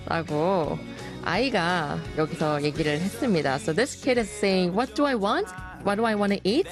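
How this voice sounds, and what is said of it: Usual voice. Nothing is said of it.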